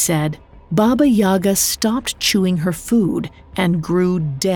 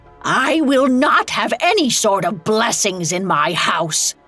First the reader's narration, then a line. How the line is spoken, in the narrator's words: screamed